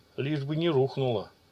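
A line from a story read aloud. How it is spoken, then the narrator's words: Soldier muttering. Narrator (Russian): пробормотал один из бойцов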